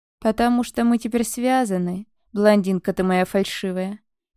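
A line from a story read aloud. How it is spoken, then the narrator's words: Bird's heavy sigh. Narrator (Russian): тяжело вздохнула птица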